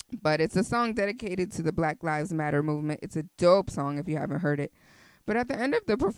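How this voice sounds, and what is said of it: Usual voice. Nothing is said of it.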